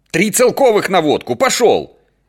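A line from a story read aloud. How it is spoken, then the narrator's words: Shouted from distance. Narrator (Russian): закричал Ростов, когда уже сани были за 3 дома от подъезда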